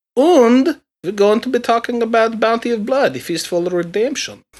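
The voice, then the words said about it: Bad fake German-ish European accent. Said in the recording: “accent that is. I have no fucking clue. It's like a bad German accent or something. ... It's like what Bela Lugosi did, but like worse. ... It's garbage European accent.”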